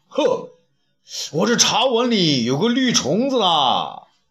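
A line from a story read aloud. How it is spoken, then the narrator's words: Shouting. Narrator (Chinese): 东方朔却又大叫道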